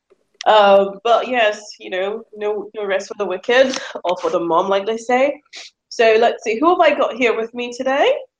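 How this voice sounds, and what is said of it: Snuffly voice with a cold. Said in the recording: “hear from my voice, but you know, my cold is still there, and so I'm still feeling a bit snuffly”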